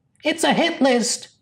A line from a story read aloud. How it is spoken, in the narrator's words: squeaked Rents